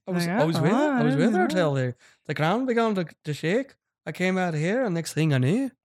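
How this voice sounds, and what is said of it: Attempted English accent, sounds Irish. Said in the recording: “it's probably in an English accent ... That's a little Irish.”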